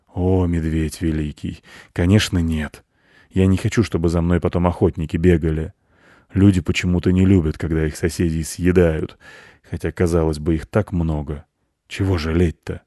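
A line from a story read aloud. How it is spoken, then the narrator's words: Sad sigh. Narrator (Russian): Волк печально вздохнул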